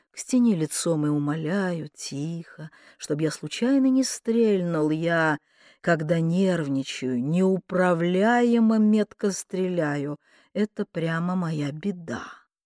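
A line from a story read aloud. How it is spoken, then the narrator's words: Soft speech. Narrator (Russian): мягко проговорил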